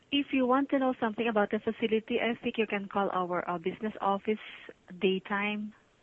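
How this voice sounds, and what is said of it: Filipino-accented English. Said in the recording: “you sound like my ex-wife. Sounded like the Philippines.”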